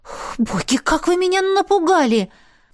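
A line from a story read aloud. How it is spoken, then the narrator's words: Sharp exhale. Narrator (Russian): Резко выдохнула я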